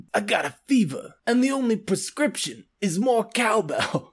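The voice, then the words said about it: Christopher Walken impression. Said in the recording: “best Christopher Walken impression”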